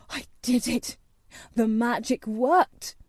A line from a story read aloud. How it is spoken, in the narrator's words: he cried